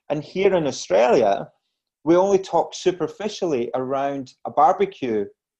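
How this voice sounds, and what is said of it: Scottish accent. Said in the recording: “as you gather from my accent, I'm originally from Scotland”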